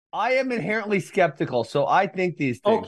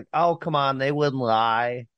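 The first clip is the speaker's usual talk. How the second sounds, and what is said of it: Imitates another person's voice. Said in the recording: “That's not how my wife talks. I don't know why I do that impression.”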